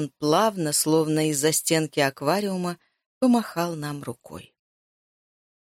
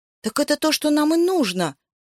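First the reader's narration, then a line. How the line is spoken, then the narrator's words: Exclaimed. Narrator (Russian): воскликнул Яша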